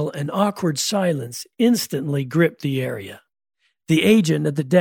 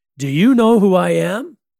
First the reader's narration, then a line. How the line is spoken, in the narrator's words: Pounding his hand on the desk, he bellowed